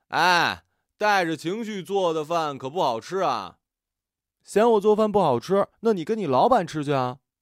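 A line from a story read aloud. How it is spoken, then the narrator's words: Shouting. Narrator (Chinese): 朝他喊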